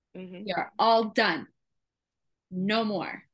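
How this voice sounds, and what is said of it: Stern teacher voice. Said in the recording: “teacher voice”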